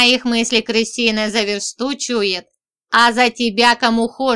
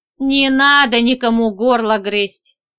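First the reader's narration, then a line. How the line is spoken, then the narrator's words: Grumbled. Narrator (Russian): проворчала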